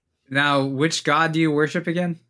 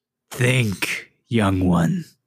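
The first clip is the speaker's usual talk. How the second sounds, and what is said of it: Distinct otherworldly character voice. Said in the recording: “in a different voice that sounds very similar to Orb voice”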